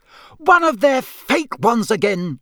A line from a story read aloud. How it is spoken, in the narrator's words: she shouted